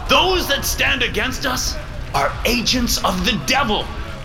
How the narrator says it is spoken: Paul shouts from the stage

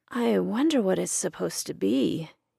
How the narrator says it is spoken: he muttered

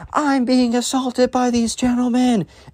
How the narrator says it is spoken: she starts screaming

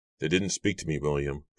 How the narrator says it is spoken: Giles replied softly

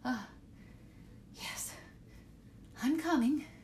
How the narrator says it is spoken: she faltered

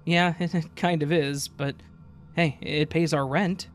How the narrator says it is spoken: chuckled said

